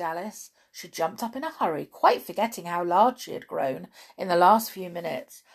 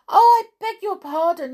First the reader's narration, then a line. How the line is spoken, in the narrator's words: she exclaimed